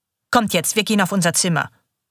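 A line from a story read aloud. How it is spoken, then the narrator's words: Hard voice. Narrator (German): sagt sie mit ihrer harten Stimme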